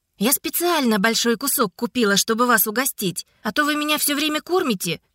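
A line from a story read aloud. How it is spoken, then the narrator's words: Joyful. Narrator (Russian): радостно сообщила вернувшаяся Котя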